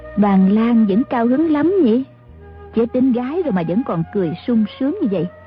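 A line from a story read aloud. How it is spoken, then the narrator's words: Smiling woman speaking. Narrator (Vietnamese): Mã phu nhân mỉm cười nói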